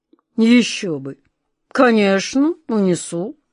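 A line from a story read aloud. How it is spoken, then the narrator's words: Grumble. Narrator (Russian): проворчал король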